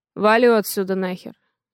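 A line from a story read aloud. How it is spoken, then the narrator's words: Rude reply. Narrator (Russian): грубо отвечает он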